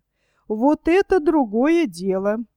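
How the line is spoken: Joyful exclaim, girl. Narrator (Russian): Обрадованно воскликнула девушка

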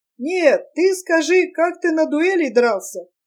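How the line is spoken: Laughing question. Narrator (Russian): спрашивал с хохотом трагик

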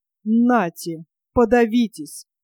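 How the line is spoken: Sudden calm, angry old woman. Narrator (Russian): Вдруг совершенно спокойным и злым голосом сказала старуха

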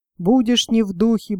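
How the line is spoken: Gruff mutter. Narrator (Russian): буркнул он

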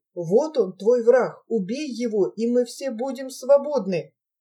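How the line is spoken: Friends whispering. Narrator (Russian): Друзья шепотом говорят Давиду

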